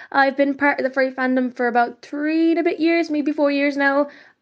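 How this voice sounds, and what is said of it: Irish accent. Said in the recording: “I am an Irish furry podcaster from Ireland, if the accent doesn't give it away.”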